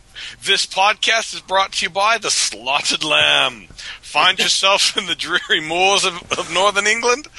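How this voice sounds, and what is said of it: Put-on accent for sponsor read. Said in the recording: “I'm trying to pull out an accent.”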